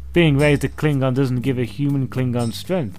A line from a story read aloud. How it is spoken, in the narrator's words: Eric laughed